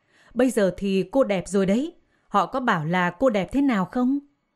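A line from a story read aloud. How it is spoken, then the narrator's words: Smiling man. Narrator (Vietnamese): Anh ta mỉm cười và bảo Maria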